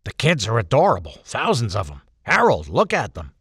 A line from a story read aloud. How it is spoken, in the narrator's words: Murray grunted